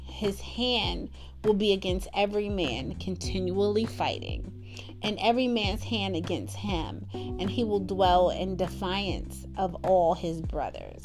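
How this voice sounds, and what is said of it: Choked-up emotional voice. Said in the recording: “I'm choked up. I'm all choked up”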